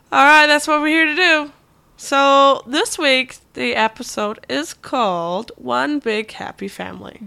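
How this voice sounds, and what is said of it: Sick-sounding, slightly strange voice. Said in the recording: “I'm sick. Very sick. ... If my accent seems a little bit strange this week, it's because I am sick.”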